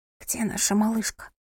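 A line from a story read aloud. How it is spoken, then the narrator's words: Whisper. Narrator (Russian): прошептала София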